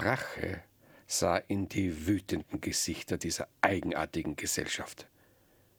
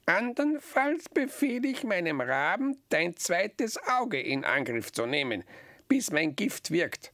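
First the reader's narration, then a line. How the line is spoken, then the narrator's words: Croaking witch. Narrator (German): krächzte die Hexe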